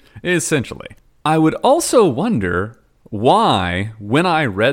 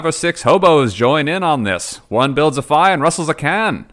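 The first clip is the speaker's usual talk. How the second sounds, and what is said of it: Put-on transatlantic accent. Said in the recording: “I immediately dropped into the transatlantic accent”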